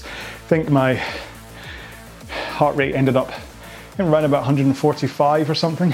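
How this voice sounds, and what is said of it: Out of breath, panting. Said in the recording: “So you can tell, I mean, I'm out of breath.”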